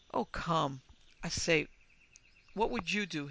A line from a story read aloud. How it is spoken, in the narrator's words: He stammered